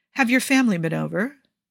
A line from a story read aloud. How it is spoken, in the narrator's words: Ibrahim asks, and his voice is calm, like he's inquiring about the weather